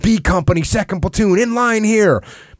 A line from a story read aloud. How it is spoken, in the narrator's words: The colonel yelling